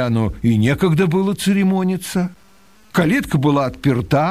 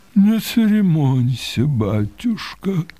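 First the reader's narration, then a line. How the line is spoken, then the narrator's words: Muffled reply. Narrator (Russian): отвечал тот глухо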